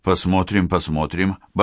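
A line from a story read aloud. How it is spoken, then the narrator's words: Muttering. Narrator (Russian): бормотал Павел Николаевич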